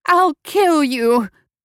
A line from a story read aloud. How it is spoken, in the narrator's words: with a squeal of rage